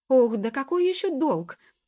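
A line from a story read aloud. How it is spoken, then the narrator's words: Dejected exclamation. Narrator (Russian): воскликнул вконец павший духом волшебник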